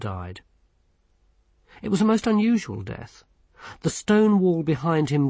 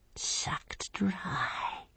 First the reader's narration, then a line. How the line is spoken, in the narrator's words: whispered Brother Fingers